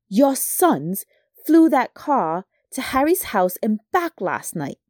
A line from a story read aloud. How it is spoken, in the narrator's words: shouted Mrs